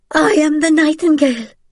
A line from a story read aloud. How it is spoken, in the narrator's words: screamed